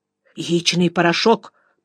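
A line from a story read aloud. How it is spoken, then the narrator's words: Hurried. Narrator (Russian): торопливо сказал директор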